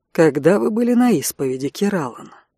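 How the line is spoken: Soft, visitor. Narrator (Russian): мягко произнес приезжий Ксен

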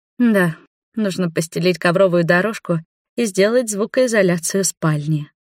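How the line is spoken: Purring. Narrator (Russian): мурлыкнула я, утыкаясь носом в грудь Роберту

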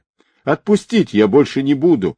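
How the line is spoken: Pleading. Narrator (Russian): взмолился химик

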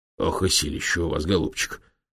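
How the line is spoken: Wary curious muttering. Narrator (Russian): пробормотал он, смотря на профессора с опасливым любопытством

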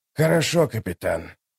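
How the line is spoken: Old man's whisper. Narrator (Russian): прошептал старик

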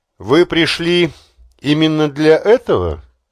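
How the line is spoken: Plain. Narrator (Russian): спросила она

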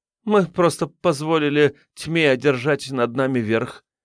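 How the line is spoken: Awkward laugh. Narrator (Russian): неловко рассмеялась Вера

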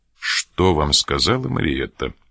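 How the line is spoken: Stern question. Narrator (Russian): спросил трактирщик строгим голосом

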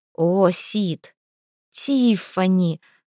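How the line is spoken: Muffled strained voice. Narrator (Russian): Она уткнулась лицом в простыню и продолжила сдавленным голосом

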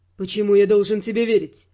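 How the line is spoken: Gloomy speech. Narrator (Russian): мрачно произнес Раймонд

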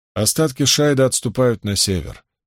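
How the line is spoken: Grim remark. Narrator (Russian): мрачно заметила Эмис

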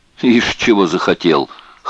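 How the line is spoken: Snorting remark. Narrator (Russian): хмыкнул Розен

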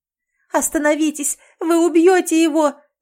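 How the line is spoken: Scream, voice breaking. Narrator (Russian): завопила Лис, срывая голос

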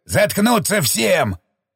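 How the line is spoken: Growl. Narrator (Russian): прорычал Шестаков

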